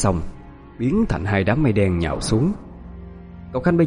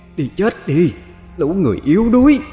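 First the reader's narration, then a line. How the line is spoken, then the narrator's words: Gloating demonic scream. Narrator (Vietnamese): hai con quỷ linh tuôn ra những tràng cười thỏa mãn rồi hét lên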